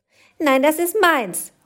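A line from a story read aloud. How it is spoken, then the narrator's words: Angry shout. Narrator (German): ruft die eine böse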